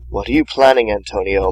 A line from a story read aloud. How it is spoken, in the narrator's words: Martin whispered